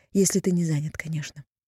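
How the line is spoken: Breathless, politely added. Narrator (Russian): выдохнула и добавила, вспомнив о приличиях

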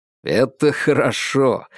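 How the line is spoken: Laughing reply. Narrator (Russian): рассмеялся в ответ Феликс

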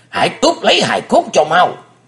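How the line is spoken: Near shouting. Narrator (Vietnamese): nói như thét lớn

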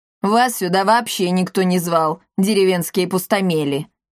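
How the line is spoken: Grumble. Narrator (Russian): буркнула Каптильда

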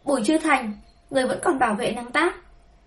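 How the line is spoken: Sudden incredulous shout. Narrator (Vietnamese): Trương Vân bỗng nhiên hét lên, nhìn Bùi Chư Thành một cách khó tin

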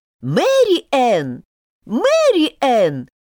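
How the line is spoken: Shouting voice. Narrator (Russian): кричал голос

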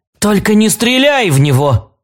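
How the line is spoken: Urgent shout. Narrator (Russian): крикнула Финлою добрая волшебница

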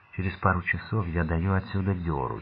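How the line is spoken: Barely audible. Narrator (Russian): чуть слышно сказал

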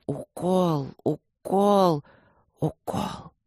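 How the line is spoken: Desperate, through clenched teeth. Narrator (Russian): отчаянно сжимая зубы, процедил

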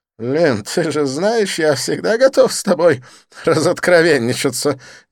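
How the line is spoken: Uncontrollable giggle. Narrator (Russian): не сдержавшись, хихикнул Дидье

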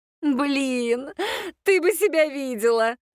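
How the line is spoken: Muttered after laughing. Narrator (Russian): Отсмеявшись, пробормотала Аннет

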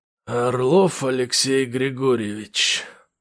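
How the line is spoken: Hoarse. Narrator (Russian): хрипло проговорил он

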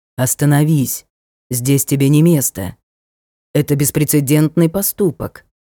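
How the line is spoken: Deep bass voice. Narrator (Russian): глубоким басом произнес

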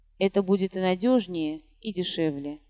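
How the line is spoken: Mutter. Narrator (Russian): бормотал

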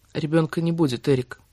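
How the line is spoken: Flat even voice. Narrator (Russian): ровным голосом произнесла

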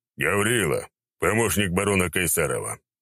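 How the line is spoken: Rough voice. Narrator (Russian): сказал он ожидаемо грубым голосом

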